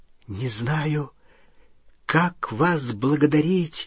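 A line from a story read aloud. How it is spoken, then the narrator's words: Trembling voice. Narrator (Russian): дрожащим голосом сказал Рон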